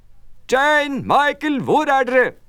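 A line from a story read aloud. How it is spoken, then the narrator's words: Calling out. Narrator (Norwegian): herr Bank som ropte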